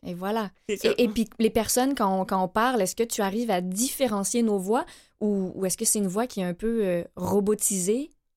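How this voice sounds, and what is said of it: Slight accent, possibly from France. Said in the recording (French): “ton petit accent aussi, là, tu sais. Mais c'est un bel accent, ... viens-tu de Paris?”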